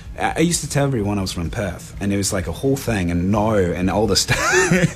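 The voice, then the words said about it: Put-on Australian accent, drifting English. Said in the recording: “an accent, an Australian accent ... It's actually really good. ... It's not bad. It teeters on English sometimes.”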